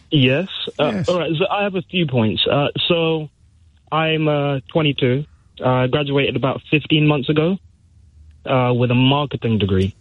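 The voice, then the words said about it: Nervous voice. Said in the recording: “you can probably hear it in my voice. I'm a little bit nervous”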